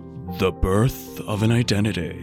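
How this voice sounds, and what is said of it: Deep movie-trailer narrator voice. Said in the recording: “It'd be like a really deep voice for the trailer. ... That kind of sounds like it should be at the planetarium.”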